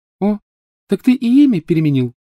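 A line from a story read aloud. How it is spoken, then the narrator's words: Cheerful question. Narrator (Russian): весело спросила она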